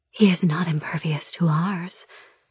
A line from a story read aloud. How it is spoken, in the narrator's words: my siren whispers, her voice seductive